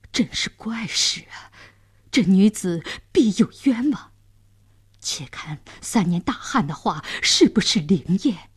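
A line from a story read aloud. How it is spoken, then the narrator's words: Surprised muttering. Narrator (Chinese): 监斩官、刽子手也惊讶地嘟囔着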